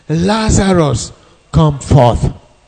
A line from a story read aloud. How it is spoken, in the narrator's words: he cried with a loud voice